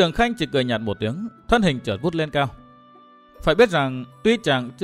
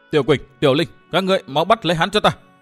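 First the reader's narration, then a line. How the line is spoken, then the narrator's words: Cold, vicious shout. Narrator (Vietnamese): lộ vẻ độc hiểm, lạnh lùng hét lên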